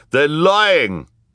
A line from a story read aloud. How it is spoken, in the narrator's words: cried Ernest